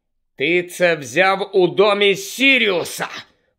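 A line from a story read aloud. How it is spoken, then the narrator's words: Hissed. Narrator (Ukrainian): прошипів Гаррі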